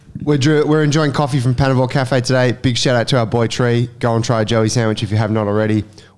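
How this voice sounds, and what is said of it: Nasal, blocked-up voice. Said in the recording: “my voice is a bit nasally, I'm a bit blocked”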